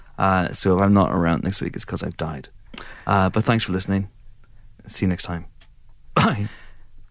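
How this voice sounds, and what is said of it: Congested voice from a cold. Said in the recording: “I don't know if you guys can hear it, but I have a cold.”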